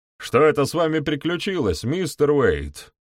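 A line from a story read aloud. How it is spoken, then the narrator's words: Shouted. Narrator (Russian): Он прокричал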